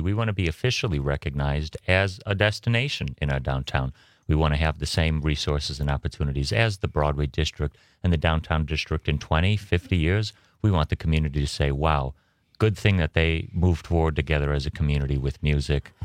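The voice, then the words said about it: Rich, resonant radio voice. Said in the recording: “has a magnificent radio voice.”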